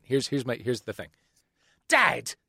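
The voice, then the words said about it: Put-on British accent. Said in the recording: “Here's my actual British accent from a couple months of watching EastEnders”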